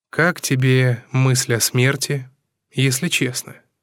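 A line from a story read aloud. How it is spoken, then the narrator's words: Plain. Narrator (Russian): спросил я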